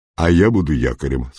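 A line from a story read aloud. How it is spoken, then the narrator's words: Plain. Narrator (Russian): сказал ковбой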